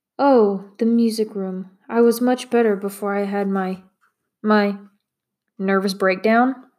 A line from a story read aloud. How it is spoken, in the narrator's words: said Matt